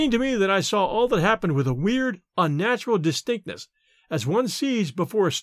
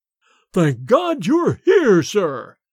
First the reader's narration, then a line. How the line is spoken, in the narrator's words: boomed forth in Bates's sepulchral voice